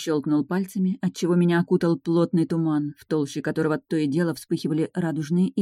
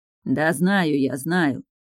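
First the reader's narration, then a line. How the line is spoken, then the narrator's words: Grumble. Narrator (Russian): проворчал лорд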